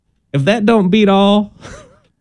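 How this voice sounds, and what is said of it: Put-on Southern US accent. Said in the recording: “Why is your voice getting southern sounding? ... you would only say that with a southern accent”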